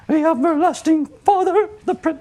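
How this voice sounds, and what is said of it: Singing in falsetto. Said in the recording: “my falsetto voice goes”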